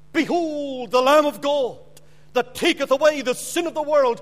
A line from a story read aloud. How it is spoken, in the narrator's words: a voice cried